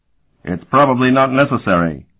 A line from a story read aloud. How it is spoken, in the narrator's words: Sparhawk shouted back